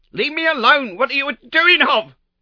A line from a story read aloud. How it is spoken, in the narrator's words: she screeched